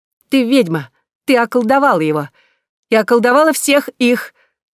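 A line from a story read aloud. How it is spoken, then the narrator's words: Shouting with laughter. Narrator (Russian): со смехом кричала Аннет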